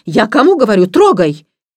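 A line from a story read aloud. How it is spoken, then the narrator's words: Stern sharp shout. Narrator (Russian): дама прикрикнула на него строгим голосом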